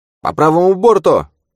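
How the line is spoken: Barked. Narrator (Russian): рявкнула Каррера

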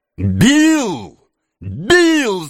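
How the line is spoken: Shouting. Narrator (Russian): закричал Феджин

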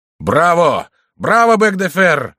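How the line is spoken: Sudden shout. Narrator (Russian): закричал вдруг Карл

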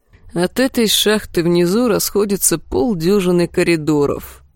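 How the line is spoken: Tired reply. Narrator (Russian): устало ответил ее брат-близнец

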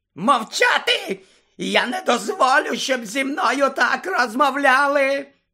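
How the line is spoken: Frantic shriek. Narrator (Ukrainian): Ще несамовитіше заверещав Снейп

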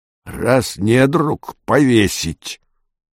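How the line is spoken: Hoarse. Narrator (Russian): хрипло сказал отец Цупик

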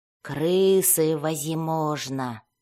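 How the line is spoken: Muttered under breath. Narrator (Russian): пробормотал себе под нос человек

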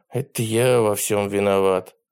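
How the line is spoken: Sighing. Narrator (Russian): вздохнул Ботан

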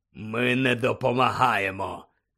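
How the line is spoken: Stern, hoarse voice. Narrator (Ukrainian): сказав він суворим, хриплим голосом

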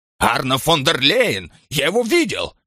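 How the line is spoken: Almost shouting. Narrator (Russian): чуть ли не кричал Штих

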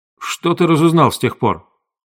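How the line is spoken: Curt, rough. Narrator (Russian): грубо бросил

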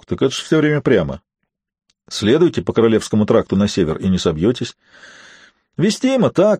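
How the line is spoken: Laughing fiddler. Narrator (Russian): засмеялся скрипач

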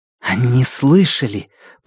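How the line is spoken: Hissed. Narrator (Russian): прошипела Зида

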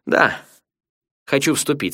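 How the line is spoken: Plain. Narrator (Russian): сказал я

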